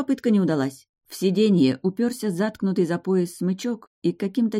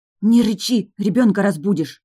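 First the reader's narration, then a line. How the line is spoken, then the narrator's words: Bold shouted whisper. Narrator (Russian): храбро заорала я шепотом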